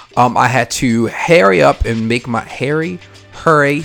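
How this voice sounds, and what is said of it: Baltimore accent. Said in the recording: “that's the Baltimore accent coming out”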